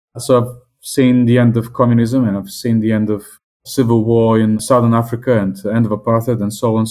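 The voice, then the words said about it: Non-British foreign accent. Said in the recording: “As you can hear from my accent, I'm not English and not Scottish either.”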